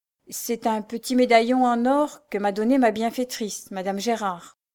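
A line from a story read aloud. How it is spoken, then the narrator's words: Plain. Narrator (French): répondit-elle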